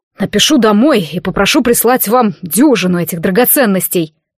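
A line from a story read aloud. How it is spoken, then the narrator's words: Breathless snapping. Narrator (Russian): огрызнулся задыхающийся Эргиан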